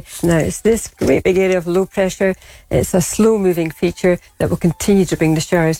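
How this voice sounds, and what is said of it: Scottish accent. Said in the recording (Dutch): “het accent is wel lastig inderdaad ... het is denk ik gewoon het Schotse accent”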